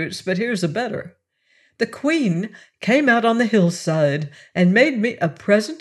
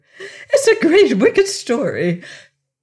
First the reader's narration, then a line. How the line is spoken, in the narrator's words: cried the queen